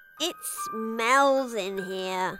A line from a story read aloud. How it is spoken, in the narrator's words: Poppy moaned